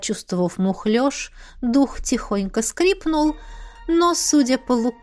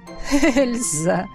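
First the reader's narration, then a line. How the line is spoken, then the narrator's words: Laughing. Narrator (Russian): рассмеялся Эдмунд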